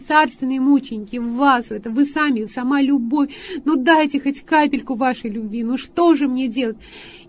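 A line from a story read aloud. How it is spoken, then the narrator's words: Pleading. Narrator (Russian): я взмолилась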